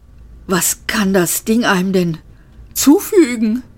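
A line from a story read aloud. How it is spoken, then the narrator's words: Panting. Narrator (German): keuchte er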